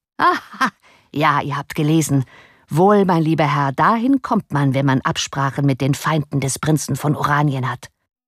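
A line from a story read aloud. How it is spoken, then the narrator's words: Laughing reply. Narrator (German): Lachend erwiderte Gryphus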